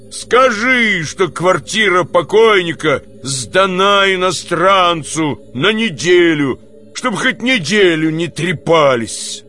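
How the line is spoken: Growled shout. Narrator (Russian): прорычал Никанор Иванович, крикнул супруге

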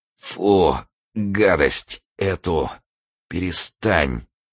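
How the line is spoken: Muttering. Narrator (Russian): бормотал Турбин

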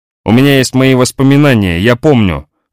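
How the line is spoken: Distant indignant cry. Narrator (Russian): вскричал Леспер где-то далеко-далеко, возмущенно

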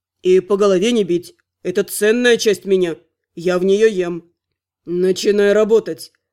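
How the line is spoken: Menacing growl. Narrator (Russian): Угрожающе прорычал Терн

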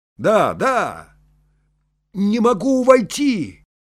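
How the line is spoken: Shout. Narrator (Russian): крикнул я

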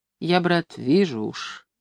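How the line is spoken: Quiet. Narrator (Russian): тихонько говорил он

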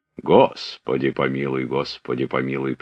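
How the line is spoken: Habitual bass voice. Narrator (Russian): прибавил привычным басом

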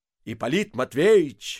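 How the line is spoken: Shout. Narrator (Russian): закричал он

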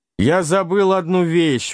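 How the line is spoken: Exclaimed. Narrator (Russian): воскликнул каноник

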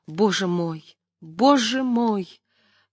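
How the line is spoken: Sobbing. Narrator (Russian): рыданий Любской, которыми разразилась она

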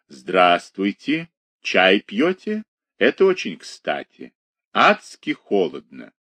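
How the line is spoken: Velvety bass voice. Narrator (Russian): он ... говорит бархатным басом

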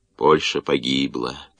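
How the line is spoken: Muttering. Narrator (Russian): пробормотал арестант

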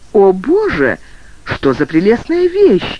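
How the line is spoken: Delighted exclamation. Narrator (Russian): воскликнула Кэти

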